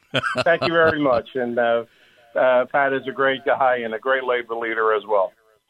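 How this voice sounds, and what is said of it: New Jersey accent. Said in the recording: “That Jersey accent always comes out.”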